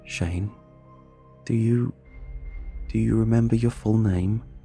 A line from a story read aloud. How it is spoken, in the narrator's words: My voice quivered as I asked